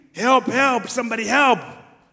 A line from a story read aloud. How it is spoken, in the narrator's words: people started to scream